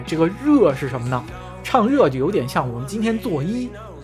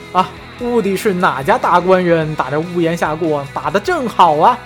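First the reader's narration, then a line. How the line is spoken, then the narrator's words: Laughing. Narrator (Chinese): 王婆就笑着说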